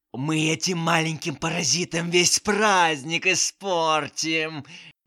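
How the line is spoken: Old woman hissing in ear. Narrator (Russian): шипела старуха на ухо

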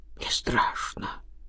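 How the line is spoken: Frightened mumble. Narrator (Russian): пробормотал Иван

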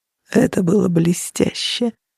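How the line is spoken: Close whisper in ear. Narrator (Russian): прошептал он так близко к ее уху

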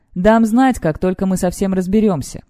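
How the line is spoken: Plain. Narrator (Russian): говорит Кэл

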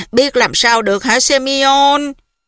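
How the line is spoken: Sighing. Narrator (Vietnamese): Bà Polina Fuchevna thở dài

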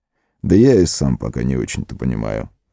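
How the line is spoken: Plain. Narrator (Russian): ответил маг

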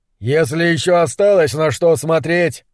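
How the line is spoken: Shouting over howling wind. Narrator (Russian): прокричал сквозь свист ветра Немрод

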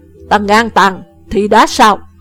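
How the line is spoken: Shouting. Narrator (Vietnamese): Thanh niên công tử quát

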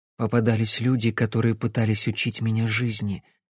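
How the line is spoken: Low muffled voice. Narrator (Russian): глухо сказала Кэсси

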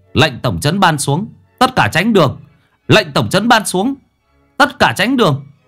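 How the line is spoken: Shouted loudly. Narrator (Vietnamese): hét lớn

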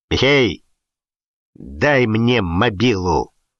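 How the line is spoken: Angry command. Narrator (Russian): зло приказал Шапито

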